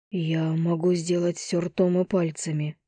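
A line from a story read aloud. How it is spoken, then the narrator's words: Whisper. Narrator (Russian): прошептал я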